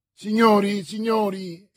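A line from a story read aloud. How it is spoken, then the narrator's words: Exclaimed. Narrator (Italian): esclamò D'Artagnan, che intravedeva il fondo dell'avventura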